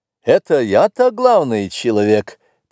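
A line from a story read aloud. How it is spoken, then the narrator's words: Cheerful. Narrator (Russian): подхватил Стебельков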